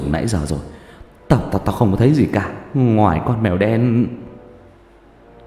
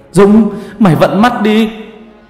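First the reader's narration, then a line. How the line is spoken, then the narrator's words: Shouting. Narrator (Vietnamese): Thằng Cường hét lên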